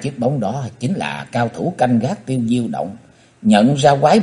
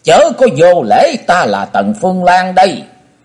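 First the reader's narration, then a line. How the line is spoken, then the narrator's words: Shrill old woman's shriek. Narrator (Vietnamese): Quái bà thét lên lanh lảnh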